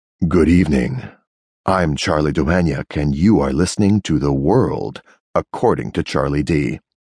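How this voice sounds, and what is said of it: Deep sepulchral horror-villain voice. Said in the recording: “My radio voice is soothing, deep, and intimate. But tonight I take it down a few notches and open with the sepulchral tones of the villain in a horror movie.”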